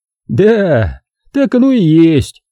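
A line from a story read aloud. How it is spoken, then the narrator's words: Laughing. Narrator (Russian): сказал он, продолжая смеяться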